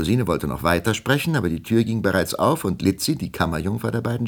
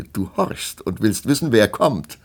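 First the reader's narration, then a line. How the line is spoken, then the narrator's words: Laughing. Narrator (German): lachte Melusine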